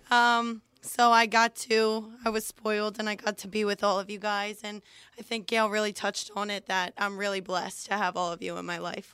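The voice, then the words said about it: Weak, not fully recovered voice. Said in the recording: “sorry for my voice. It's not completely back yet.”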